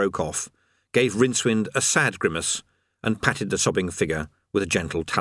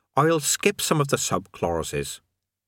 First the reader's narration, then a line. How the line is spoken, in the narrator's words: he said kindly